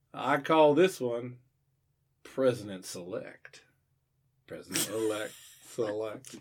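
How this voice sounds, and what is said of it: Put-on Southern presidential voice. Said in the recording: “I feel like that was a combination of like Bill Clinton. ... I can only do Southern accent ... every president sounds Southern to me.”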